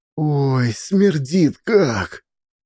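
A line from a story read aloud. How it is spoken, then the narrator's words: Childlike sob. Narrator (Russian): по-детски всхлипнула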